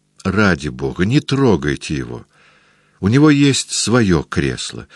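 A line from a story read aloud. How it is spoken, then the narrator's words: Pleading. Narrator (Russian): взмолился Фарук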